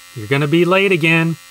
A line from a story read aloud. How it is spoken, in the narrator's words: called out